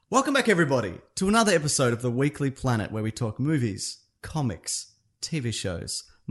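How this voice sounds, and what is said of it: Polished radio-announcer voice. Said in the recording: “What's with your NPR voice all of a sudden?”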